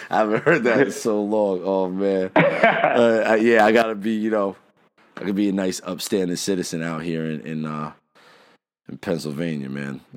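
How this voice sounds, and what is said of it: New Jersey accent. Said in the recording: “when they hear my accent ... Don't forget Jersey”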